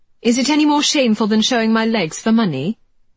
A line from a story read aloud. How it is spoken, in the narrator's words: The words came out more sharply than Georgie had intended